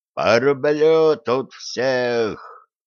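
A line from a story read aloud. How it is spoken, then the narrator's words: Furious distant shouting man. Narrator (Russian): яростно кричала внизу какой-то мужик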